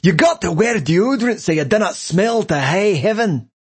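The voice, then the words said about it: Thick put-on Scottish accent. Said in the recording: “A thick Scottish brogue”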